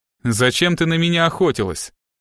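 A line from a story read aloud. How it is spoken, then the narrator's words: Threatening breathless question. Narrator (Russian): угрожающим тоном спросил, запыхавшийся Страйк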